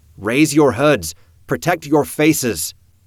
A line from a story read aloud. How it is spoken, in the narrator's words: hollering the words, top of his lungs shouting to be heard over the birds